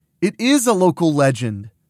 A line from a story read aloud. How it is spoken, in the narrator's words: Mona snaps